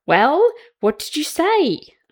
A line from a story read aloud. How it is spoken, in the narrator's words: Archie gasps